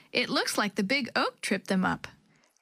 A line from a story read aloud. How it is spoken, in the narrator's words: Chris laughed